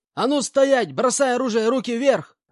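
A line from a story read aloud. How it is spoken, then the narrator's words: Man yelling at full volume. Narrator (Russian): заорал во всю глотку один из мужиков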